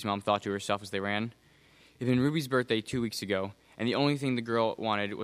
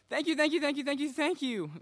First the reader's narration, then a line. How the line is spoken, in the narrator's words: the young girl squeaked